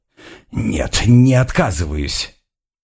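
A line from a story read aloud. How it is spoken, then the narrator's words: Weak hoarse wheeze. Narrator (Russian): я слабо прохрипел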